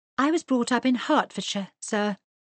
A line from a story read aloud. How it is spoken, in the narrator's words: she said brightly